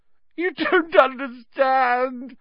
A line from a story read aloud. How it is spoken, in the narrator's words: whined Pettigrew